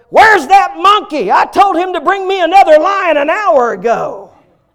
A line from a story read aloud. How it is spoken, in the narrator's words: the dog shouted